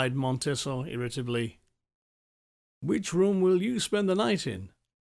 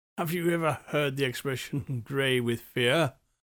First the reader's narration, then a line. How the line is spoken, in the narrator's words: He said, laughing in the dark